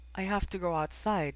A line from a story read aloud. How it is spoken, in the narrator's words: she said, her voice unsteady